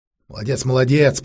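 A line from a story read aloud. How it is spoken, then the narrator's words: Grumbled. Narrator (Russian): проворчал маг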